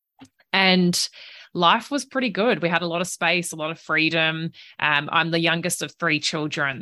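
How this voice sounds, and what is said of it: Australian accent. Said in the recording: “I'm Australian, if you can't already tell from the accent.”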